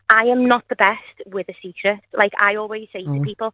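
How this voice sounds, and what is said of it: Whispering. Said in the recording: “I don't know why I'm whispering, so, like, no one can hear me.”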